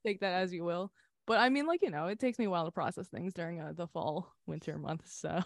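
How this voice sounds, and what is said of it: Sleepy, not fully awake voice. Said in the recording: “I'm not like fully awake. You can all hear it in my voice.”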